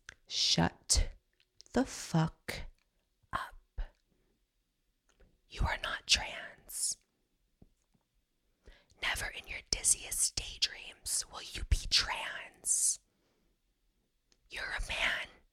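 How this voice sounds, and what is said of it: Soft ASMR-style voice, heavily enunciated. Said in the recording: “I'm going to do it even in his ASMR voice. I'm going to really enunciate so he hears every vowel.”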